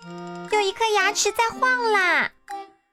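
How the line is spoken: Frightened scream, little girl. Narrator (Chinese): 小公主吓得大叫

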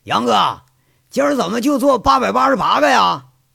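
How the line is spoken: Calling out. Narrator (Chinese): 孙大雷喊着

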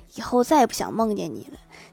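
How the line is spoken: Quiet muttering. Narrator (Chinese): 郭大侠小声嘀咕说

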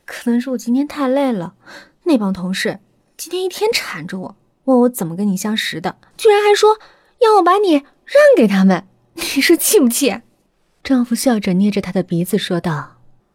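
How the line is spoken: Laughing. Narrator (Chinese): 阿姨笑着说道

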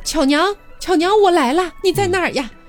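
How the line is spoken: Loud calling. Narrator (Chinese): 他大声的喊道

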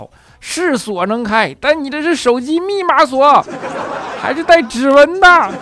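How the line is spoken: Agitated yelling. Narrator (Chinese): 锁匠急了，跟肖钦吼

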